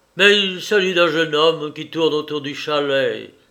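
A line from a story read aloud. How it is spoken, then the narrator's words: Exclaimed. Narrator (French): s'écria madame Latournelle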